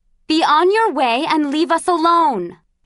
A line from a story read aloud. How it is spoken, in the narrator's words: she yelled